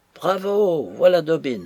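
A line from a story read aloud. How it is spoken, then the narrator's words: Delighted exclamation. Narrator (French): s'écria George, enchanté de voir son vieil ami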